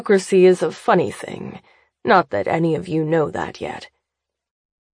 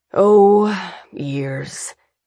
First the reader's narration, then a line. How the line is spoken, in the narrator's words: Davidson sighs, matching her forced humor